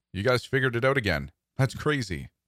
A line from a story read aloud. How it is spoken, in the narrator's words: exclaimed